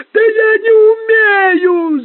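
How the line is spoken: Yelling. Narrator (Russian): завопил

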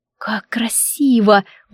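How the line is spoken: Whisper. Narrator (Russian): прошептала я

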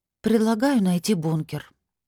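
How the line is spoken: Upset sigh. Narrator (Russian): расстроенно вздохнула

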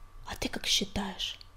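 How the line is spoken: Whisper. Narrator (Russian): прошептала синяя звезда

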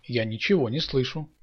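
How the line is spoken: Plain. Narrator (Russian): сказал Саша

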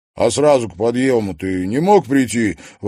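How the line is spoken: Grumbling. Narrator (Russian): ворчал он

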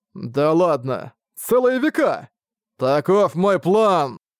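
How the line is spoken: Loud guffaw. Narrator (Russian): Магура захохотал

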